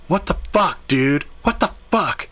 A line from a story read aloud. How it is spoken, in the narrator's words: My partner screamed out